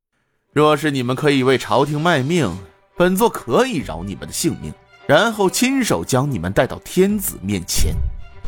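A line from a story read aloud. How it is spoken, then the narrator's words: Calm, detached. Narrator (Chinese): 风鹰淡淡的说道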